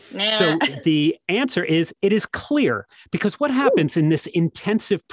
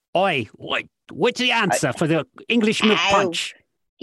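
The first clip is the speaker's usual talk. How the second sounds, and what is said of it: Put-on Cockney accent. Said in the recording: “a Cockney accent”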